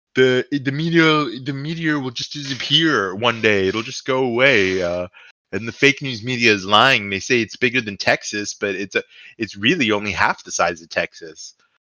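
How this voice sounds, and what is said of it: Imitates another person's voice. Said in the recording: “I don't know what accent that was ... It was my best attempt at a Trump voice.”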